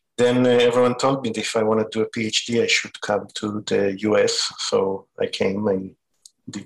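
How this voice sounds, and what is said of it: Israeli accent. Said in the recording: “as you can tell by my accent, I wasn't born in the U.S. I'm Israeli.”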